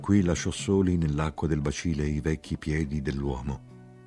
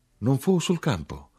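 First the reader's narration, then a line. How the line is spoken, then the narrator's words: Hushed exclamation. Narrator (Italian): io esclamai sempre sottovoce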